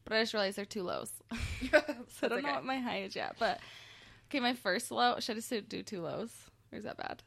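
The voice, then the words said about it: Slightly froggy, scratchy voice. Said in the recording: “you can probably hear my voice is, like, a little froggy. Yeah, a little froggy ... I have a scratchy throat”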